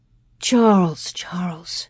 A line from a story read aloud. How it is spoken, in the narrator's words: Ma said soothingly